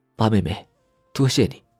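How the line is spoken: Soft sigh. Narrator (Chinese): 傅德熙轻轻叹一口气

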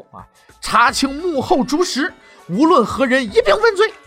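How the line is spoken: Hoarse furious roar. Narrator (Chinese): 发出了声嘶力竭的怒吼

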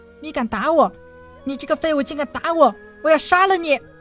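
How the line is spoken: Shrill scream. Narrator (Chinese): 尖声的叫了起来

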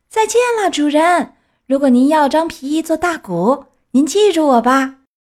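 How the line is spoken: Calling out while leaving. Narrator (Chinese): 他飞快地游离海岸，对可怜的买主叫道

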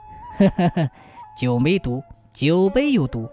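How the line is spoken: Chuckling. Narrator (Chinese): 刘知县呵呵一笑说

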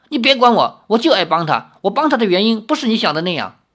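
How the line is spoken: Embarrassed and angry. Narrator (Chinese): 阿奴脸更红，恼羞成怒，说

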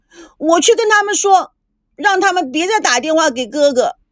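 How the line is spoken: Sad crying out. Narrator (Chinese): 美娇 她伤心地喊着

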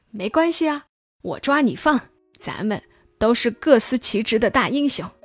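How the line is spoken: Grinning, cheerful. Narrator (Chinese): 将军就笑嘻嘻地说

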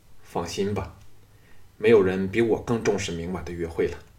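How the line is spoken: Flat, indifferent. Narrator (Chinese): 淡淡的说

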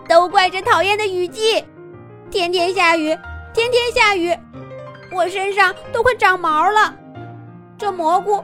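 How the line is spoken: Crying. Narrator (Chinese): 狮子兔又哭起来

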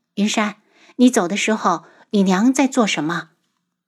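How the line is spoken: Soft question. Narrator (Chinese): 楚清瑶 轻声问道

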